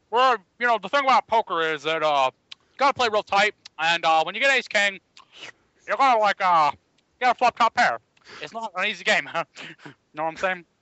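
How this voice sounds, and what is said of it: Put-on Texas accent, toothless mumble. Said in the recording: “Was he eating soup when he talked to you about it ... that's his lack of teeth ... Your Texas accent, like, sounds like”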